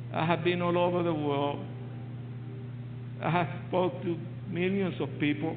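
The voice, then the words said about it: Noticeable accent. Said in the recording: “can you tell that I have an accent? ... A sexy accent.”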